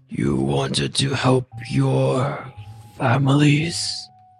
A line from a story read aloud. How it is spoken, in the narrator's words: he asked, his voice no longer a growl, but a low rumbling murmur